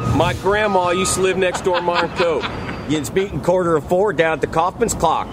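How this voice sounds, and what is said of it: Put-on regional accent, hard R's. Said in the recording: “I like how hard the R's are... It's very hard... It's a great accent.”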